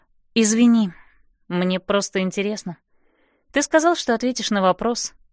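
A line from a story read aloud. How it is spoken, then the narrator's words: Calm reminder. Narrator (Russian): спокойно напоминаю я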